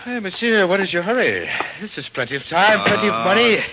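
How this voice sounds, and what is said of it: Put-on accent. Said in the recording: “You don't have to put on that accent.”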